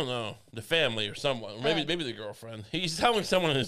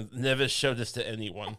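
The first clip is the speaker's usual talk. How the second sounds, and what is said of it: Creepy German accent. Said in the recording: “in his creepy German accent”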